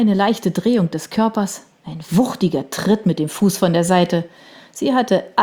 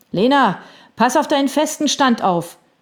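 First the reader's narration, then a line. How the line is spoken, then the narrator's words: Calling out. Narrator (German): rief jemand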